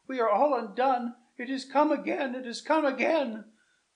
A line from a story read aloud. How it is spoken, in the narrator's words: cried she